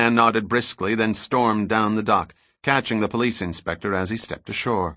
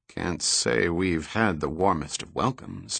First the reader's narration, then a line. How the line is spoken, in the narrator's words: Dirk muttered